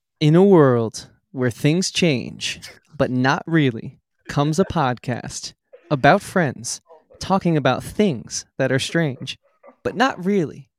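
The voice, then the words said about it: Dramatic movie trailer announcer voice. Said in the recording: “I'm going to try my best movie announcer voice.”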